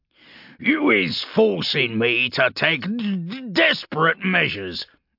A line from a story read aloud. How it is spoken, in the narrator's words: Urgulk spat